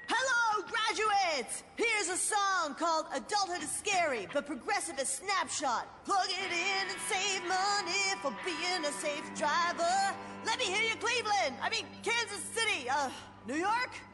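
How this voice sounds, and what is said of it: Rock band frontman addressing a crowd. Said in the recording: “my impression of a geographically challenged rock band delivering a commencement speech”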